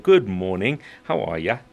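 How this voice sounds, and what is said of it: Fairly good put-on Australian accent. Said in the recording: “a fine Australian accent that you attempted there ... You did fairly well.”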